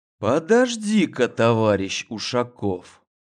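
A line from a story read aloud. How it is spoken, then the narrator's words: Quiet, pointed intonation. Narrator (Russian): Негромко и с особой интонацией произнес он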